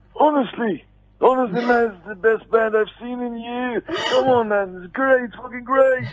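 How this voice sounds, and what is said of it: Imitates another person's voice. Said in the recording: “Ozzy came back and shuffled over... that impersonation. That was great.”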